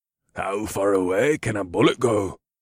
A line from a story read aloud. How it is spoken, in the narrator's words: Torek asked in his rumbling voice